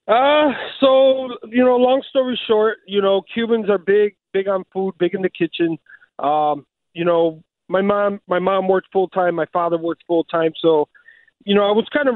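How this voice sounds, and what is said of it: Chicago accent. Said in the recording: “the accent gives it away. Over by there, I should have figured you're a Chicago native.”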